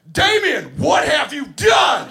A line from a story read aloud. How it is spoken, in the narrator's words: at the top of my lungs, I yell